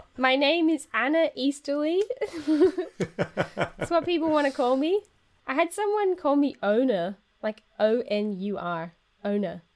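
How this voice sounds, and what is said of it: Pronounced German accent. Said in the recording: “maybe it's a German accent thing. ... I do have quite a pronounced German accent.”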